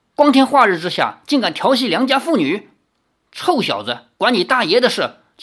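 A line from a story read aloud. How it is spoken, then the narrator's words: Angry. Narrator (Chinese): 其中一个人怒道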